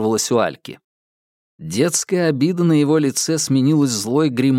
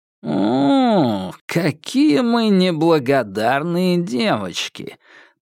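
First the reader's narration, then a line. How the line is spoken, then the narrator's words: Drawled mockingly. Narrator (Russian): протянул парень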